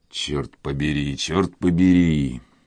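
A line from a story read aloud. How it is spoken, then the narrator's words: Thoughtful old man muttering. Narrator (Russian): пробормотал старик с задумчивым видом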